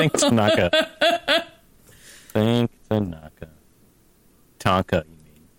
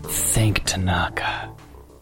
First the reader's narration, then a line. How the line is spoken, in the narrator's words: I whisper